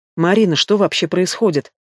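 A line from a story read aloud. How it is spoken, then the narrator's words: Quiet question. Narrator (Russian): Спрашивает мама тихо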